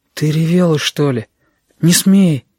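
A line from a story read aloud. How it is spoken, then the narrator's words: Near-sobbing. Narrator (Russian): сам чуть не всхлипнул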